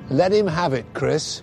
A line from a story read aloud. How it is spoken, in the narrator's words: had shouted out